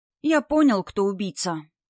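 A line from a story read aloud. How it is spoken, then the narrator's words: Said sadly. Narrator (Russian): сказал Вовка грустно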